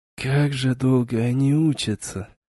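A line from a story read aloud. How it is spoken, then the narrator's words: Sighed. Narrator (Russian): Вздохнул Вейс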